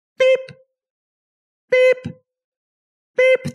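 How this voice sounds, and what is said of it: Imitates computer beeping sounds. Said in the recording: “my impression of the Hatch computer”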